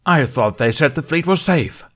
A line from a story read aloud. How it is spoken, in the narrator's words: Thothili roared